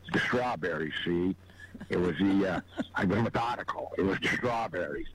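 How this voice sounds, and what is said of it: Imitates another person's voice. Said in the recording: “good Bogart impression”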